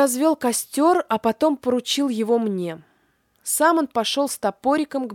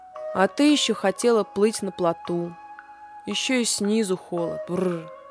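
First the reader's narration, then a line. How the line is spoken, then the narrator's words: Grumbling. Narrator (Russian): проворчал он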